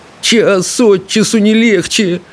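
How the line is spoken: Groaning. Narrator (Russian): простонал Рыбьенок

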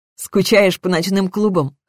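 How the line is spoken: Smirking. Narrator (Russian): хмыкнула я

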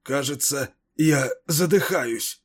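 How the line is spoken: Hoarse mutter. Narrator (Russian): хрипло пробормотал он

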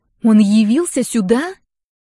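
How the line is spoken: Hissing. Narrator (Russian): Зашипела Рагна

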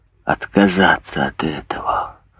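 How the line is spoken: Whisper. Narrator (Russian): прошептал бедный глухой

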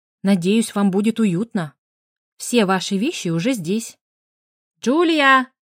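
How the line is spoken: Barked shout. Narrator (Russian): Бренда рявкнула

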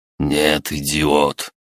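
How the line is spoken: Restrained hiss. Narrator (Russian): Чтобы еще больше не повышать голос, прошипел лысый

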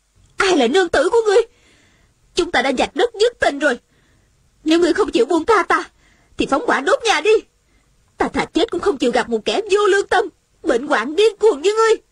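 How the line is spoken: Angry woman. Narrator (Vietnamese): Nữ nhân trong nhà giận dữ nói

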